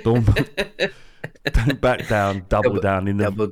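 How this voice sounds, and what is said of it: Glaswegian accent imitating Limmy. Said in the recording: “trying to do a Glaswegian accent ... in the voice ... Limmy never gives bad advice”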